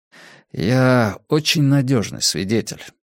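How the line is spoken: Quiet. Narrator (Russian): негромко проговорил он

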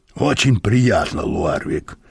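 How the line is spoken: Hoarse wheeze. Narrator (Russian): прохрипел господин Мозес

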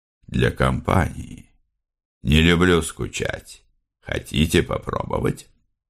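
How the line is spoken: Soft voice, slightly husky. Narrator (Russian): в мягком голосе инспектора действительно прорезалась хрипотца

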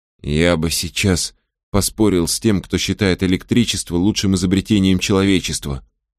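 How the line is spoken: Whispered. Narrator (Russian): прошептал Сожирук Фариду

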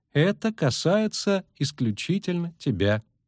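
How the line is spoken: Slow, deliberate repetition. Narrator (Russian): медленно повторил Лютик

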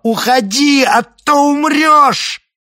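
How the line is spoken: Shouting. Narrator (Russian): закричала

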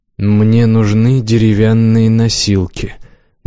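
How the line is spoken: Flat, colorless voice. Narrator (Russian): бесцветным голосом сказал Развеяр

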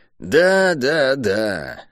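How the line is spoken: Weary, dismissive. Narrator (Russian): устало отмахнулась от него убийца Сариты

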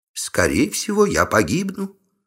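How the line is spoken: Calm witch. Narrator (Russian): спокойно ведьма

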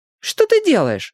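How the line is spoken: Shrill squeal. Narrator (Russian): взвизгнула одна из подружек

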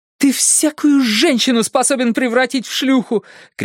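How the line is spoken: Shouting. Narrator (Russian): кричала Мелина

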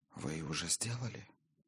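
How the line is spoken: Quiet reply. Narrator (Russian): тихонько ответила Гиллера

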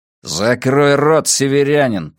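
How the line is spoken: Growl. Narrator (Russian): прорычал Порто

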